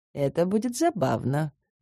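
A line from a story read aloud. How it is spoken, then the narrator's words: Muttering. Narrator (Russian): пробормотала я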